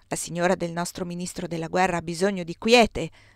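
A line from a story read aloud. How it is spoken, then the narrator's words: Doctor shouting. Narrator (Italian): gridò il dottore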